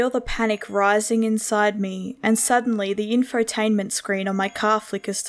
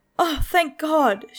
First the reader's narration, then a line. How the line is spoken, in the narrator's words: sobbed